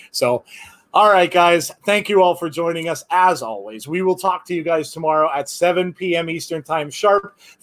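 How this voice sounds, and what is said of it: Strained, worn-out hoarse voice. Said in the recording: “Ah, my voice, I'm done now. ... My voice is shot.”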